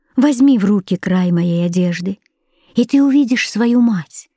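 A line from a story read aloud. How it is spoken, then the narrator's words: Gentle reply. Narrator (Russian): Она ласково ответила ему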